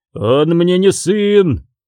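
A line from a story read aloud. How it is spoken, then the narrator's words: Roaring tsar. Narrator (Russian): проревел царь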